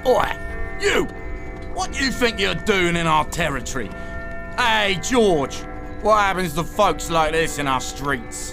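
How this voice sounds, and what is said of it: Put-on Cockney accent. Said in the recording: “Cockney accents.”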